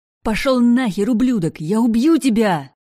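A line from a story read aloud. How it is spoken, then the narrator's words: Screaming. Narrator (Russian): Я вопила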